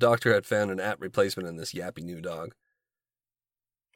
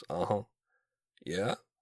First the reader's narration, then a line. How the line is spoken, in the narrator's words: mumbled affirmations